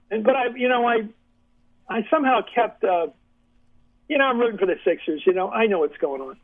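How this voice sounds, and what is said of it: Philadelphia accent. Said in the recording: “Philly accent, so you can recognize my voice ... I grew up enough to catch the accent.”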